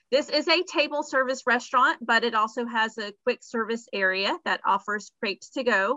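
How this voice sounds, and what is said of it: Southern American accent. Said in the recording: “my Southern girl accent, I don't know how French I can get”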